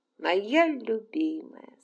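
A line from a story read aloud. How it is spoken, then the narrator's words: Plain. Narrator (Russian): сказал он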